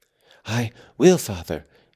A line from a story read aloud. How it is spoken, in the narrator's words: he panted